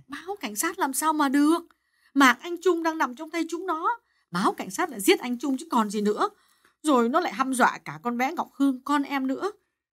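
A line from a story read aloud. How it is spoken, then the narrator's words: Mildly irritated snap. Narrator (Vietnamese): Bà Hà gắt nhẹ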